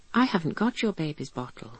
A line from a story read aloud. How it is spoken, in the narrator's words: I said in a bewildered tone